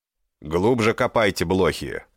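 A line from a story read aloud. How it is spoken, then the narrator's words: Booming voice. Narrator (Russian): прогремел голос Ачарьи Ирума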